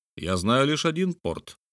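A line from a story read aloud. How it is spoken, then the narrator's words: Calm reply. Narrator (Russian): спокойно ответил Филиас Фок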